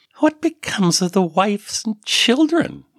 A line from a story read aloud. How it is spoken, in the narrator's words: Miri asked scornfully